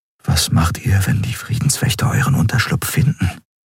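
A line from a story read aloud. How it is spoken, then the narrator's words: Quiet question. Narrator (German): fragte Kai leise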